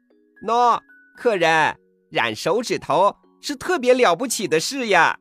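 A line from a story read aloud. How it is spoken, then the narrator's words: Sly smiling fox. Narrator (Chinese): 狐狸眯然一笑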